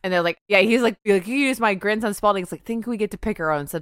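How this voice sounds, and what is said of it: Usual voice. Nothing is said of it.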